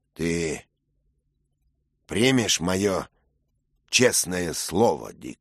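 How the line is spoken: Plain. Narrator (Russian): спросил рыцарь

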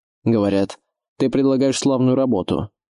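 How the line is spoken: Barbarian's rough voice. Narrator (Russian): грубым голосом начал варвар

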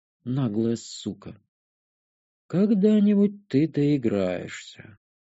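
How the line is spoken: Quiet remark. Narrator (Russian): Негромко обронил Денерф

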